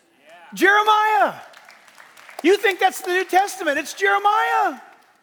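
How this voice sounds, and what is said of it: Yelling, screaming preacher voice. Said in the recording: “I'm yelling. I'm screaming.”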